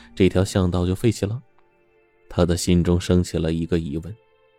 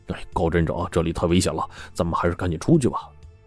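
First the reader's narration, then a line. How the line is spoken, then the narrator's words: Low urgent whisper. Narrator (Chinese): 刘麻子压低声音催促说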